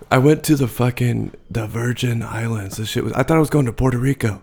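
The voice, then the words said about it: Badly strained, damaged voice. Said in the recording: “My voice is fucked from this last weekend ... Oh, it is that bad ... it's toasted”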